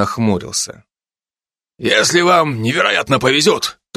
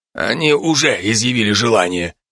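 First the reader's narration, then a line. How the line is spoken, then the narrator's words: Plain. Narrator (Russian): ответил Галей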